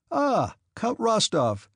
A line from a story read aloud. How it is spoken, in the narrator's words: exclaimed joyfully